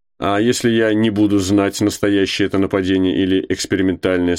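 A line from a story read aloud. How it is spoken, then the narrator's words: Plain. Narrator (Russian): спросил он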